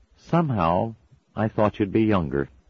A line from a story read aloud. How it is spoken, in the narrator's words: she said in a slightly disappointed voice